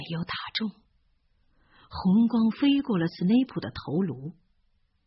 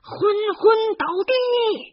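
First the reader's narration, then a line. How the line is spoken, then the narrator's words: Shouting while running. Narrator (Chinese): 哈利狂奔着 大声的喊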